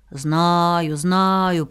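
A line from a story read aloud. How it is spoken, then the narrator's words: Loud beetle buzz. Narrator (Russian): прожужжал жук Дормидонт так громко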